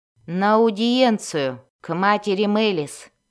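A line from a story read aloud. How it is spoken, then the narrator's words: Gloomy. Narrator (Russian): мрачно сказала она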